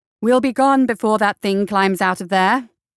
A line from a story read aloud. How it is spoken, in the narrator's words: called out loudly